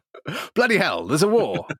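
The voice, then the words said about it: Clean-cut 1950s newsreader accent. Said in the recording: “a very clean cut accent ... That's exactly how all newsreaders sounded in the 50s. ... What a perfect accent.”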